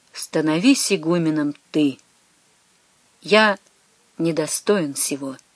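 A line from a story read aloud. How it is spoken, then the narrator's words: Quiet, faint, after long silence. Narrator (Russian): почти падая в обморок, теряя сознание почти, он, наконец, после страшных и долгих минут молчания, тихо выговорил брату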